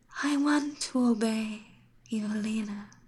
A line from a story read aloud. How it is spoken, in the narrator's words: she whispered